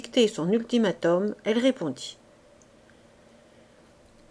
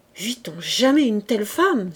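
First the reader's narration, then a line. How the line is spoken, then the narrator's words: Exclaiming. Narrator (French): s'écriait-il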